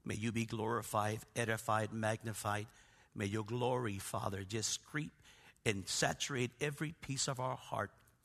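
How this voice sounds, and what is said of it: Raspy, hoarse voice. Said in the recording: “my voice is raspy and I'm hacking and coughing”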